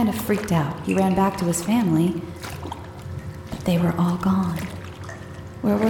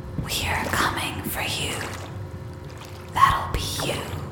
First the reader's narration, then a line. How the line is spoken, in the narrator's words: a light whisper that said